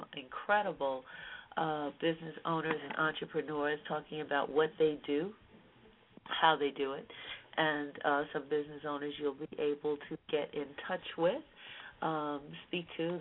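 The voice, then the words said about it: Voice affected by a cold. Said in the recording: “As you can hear, I have a bit of a cold, so I'm going to give my voice a rest”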